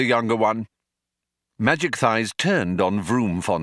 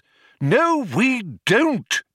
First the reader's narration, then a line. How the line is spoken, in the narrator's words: exclaimed Magic Thighs in irritation